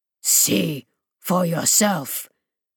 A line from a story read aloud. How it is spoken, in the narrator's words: Mesmon growled, plainly not fond of being the butt of the thing's odd wit